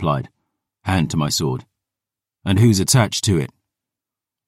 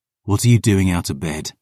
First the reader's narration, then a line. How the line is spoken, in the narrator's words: I growled